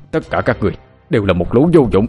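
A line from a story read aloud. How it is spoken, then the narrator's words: Exasperated official shouting. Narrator (Vietnamese): quan thấy thất vọng ghê gớm, không nhịn được bức xúc, nóng mặt quát tiếp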